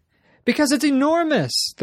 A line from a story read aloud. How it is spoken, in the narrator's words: the woman shouted